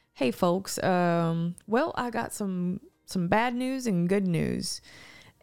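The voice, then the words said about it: Put-on Southern accent, pilot voice. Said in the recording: “I feel like they always have like a Southern accent too”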